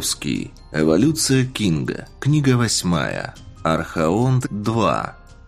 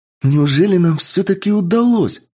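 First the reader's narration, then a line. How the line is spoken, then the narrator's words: Joyful exclamation. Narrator (Russian): радостно воскликнула Таира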